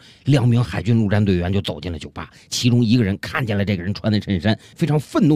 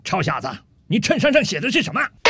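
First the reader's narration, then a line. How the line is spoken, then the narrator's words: Slow, leisurely. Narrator (Chinese): 这陆军大兵慢悠悠地对着吧台里的酒保说道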